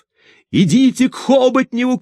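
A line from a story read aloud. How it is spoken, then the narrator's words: Shouting. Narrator (Russian): кричал он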